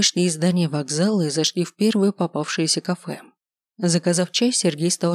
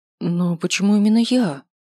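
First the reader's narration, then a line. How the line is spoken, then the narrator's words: Confused question. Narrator (Russian): растерянно спросила я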